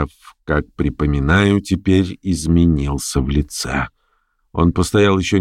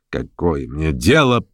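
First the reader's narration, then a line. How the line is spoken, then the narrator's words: Sullen grumble. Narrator (Russian): насупился и, проворчав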